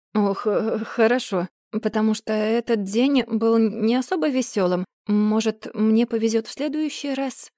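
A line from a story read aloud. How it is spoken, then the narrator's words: Dejected mutter. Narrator (Russian): Пробормотала я, осознав, насколько удручающе прозвучало это заявление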